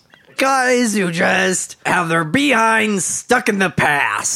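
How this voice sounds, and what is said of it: Imitates another person's voice. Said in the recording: “Back in Black with Lewis Black ... He's even doing the voice.”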